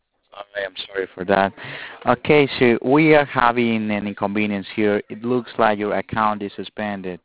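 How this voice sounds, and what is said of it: Accent hard to understand. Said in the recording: “I barely can understand your accent.”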